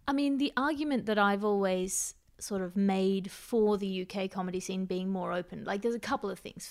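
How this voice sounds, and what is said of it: Australian accent. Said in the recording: “they can't read my accent there, so I don't have to prove that I'm not posh ... they just think I sound like Australian, like convict”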